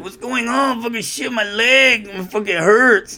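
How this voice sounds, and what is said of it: Put-on Mexican accent, pained strained voice. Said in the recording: “I love the Mexican accent ... I do this impression about Mexicans, how, you know, they sound like they just had groin surgery”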